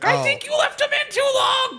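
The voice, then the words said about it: Gingerbread Man cartoon character voice. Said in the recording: “That was my best Gingy impression. ... That was a good Gingy impression.”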